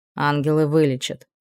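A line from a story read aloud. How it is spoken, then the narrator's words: Grumbling mutter. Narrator (Russian): буркнула Вилора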